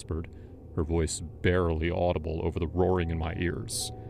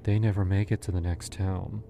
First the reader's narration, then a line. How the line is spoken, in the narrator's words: she said, almost sadly